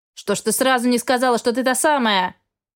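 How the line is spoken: Shout from behind. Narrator (Russian): прокричал невидимка за моей спиной

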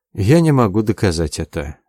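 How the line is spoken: Sad sigh. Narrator (Russian): грустно вздохнул юноша

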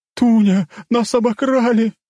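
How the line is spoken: Wailing stout woman. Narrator (Russian): взвыла толстуха

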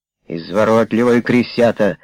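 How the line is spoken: Muttered under breath. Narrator (Russian): буркнул под нос сержант в головной машине

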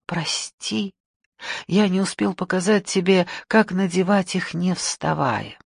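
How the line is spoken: Whisper. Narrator (Russian): Хинара прошептал

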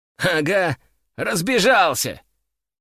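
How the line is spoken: Short laugh. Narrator (Russian): хохотнул Касситрикс

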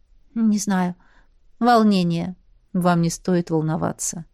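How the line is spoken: Soft. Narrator (Russian): сказал мягко

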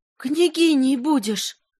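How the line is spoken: Cry, then plaintive moan. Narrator (Russian): опять вскрикнула Горлинка и жалобно застонала

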